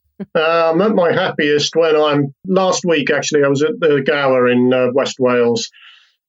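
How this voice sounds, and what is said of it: English accent. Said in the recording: “I'm a Welshman with an English accent”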